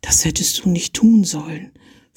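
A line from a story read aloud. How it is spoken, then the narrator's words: Whispered to him. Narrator (German): flüsterte sie ihm zu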